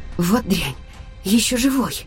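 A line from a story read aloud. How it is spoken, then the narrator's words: Breathless exclamation. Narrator (Russian): Выдохнула я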